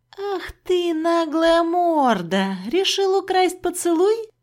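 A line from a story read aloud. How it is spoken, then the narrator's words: Cheerful teasing question. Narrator (Russian): Весело спросила я у кота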